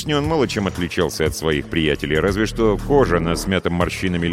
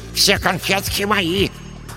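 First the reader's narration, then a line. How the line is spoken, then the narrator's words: Breathless lisping dwarf. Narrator (Russian): с одышкой прошепелявил третий карлик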